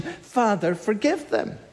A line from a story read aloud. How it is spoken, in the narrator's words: he cries out to the Father in compassion